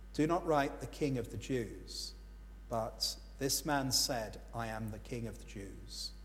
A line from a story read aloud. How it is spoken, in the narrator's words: Pilate answered them